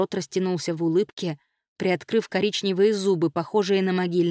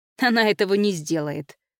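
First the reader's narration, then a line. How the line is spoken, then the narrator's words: Snorted. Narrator (Russian): фыркнул Ломакс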